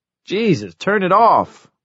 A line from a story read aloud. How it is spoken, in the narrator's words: Wireman yelped